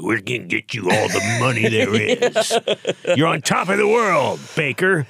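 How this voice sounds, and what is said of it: Imitates a sports agent's voice. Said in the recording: “That's what an agent sounds like. ... your agent impression.”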